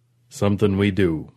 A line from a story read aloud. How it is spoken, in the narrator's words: Perlman rumbled